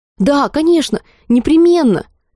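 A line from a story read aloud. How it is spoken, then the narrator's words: Women shouting in chorus. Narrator (Russian): хором, перебивая друг друга, закричали хозяйки территории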